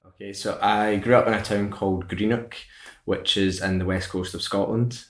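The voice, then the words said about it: Scottish accent. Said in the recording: “a Scottish accent”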